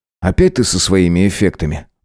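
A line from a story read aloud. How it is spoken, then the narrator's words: Grumbled. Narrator (Russian): буркнул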